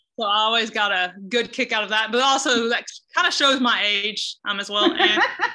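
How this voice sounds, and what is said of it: Southern US accent. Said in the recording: “tell by my voice, I am not originally from Iowa... I am originally from the South”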